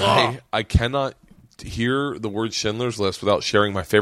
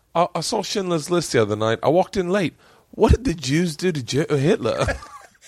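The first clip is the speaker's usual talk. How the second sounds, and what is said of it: Put-on British accent. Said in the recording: “I'm going to do it with your accent ... he's just a British comic”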